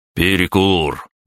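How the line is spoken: Muscular man barking. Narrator (Russian): Рявкнул мускулистый

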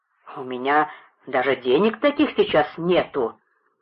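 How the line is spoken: Indignant. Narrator (Russian): возмущенно продолжал губернатор

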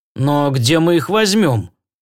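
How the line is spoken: Dejected question. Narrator (Russian): уныло справился мистер Роммели

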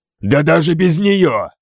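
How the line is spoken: Growling. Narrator (Russian): прорычал я

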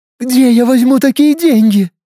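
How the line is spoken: Sobbing. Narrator (Russian): рыдала Инна

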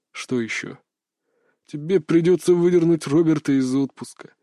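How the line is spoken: Weary boss. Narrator (Russian): устало произнес начальник

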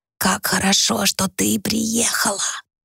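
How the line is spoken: Whisper. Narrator (Russian): снова прошептала она

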